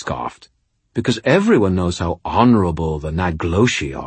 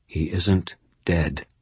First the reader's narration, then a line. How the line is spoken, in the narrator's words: I said quietly